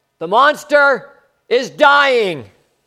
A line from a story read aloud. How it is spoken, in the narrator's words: Nibbs shouted out